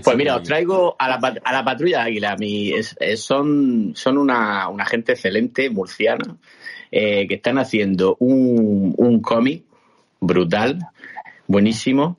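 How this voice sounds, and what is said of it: Murcian Spanish accent. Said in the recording (Spanish): “Soy el, el, acento murciano de esta el acento murciano de, aquí”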